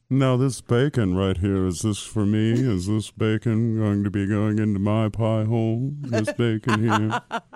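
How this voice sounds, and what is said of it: Imitates another person's voice. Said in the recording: “that was my Meldrum impression”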